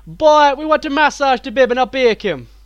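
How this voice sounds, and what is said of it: Thick Jamaican accent. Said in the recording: “who was Jamaican, had a very thick accent ... So the joke there was an accent.”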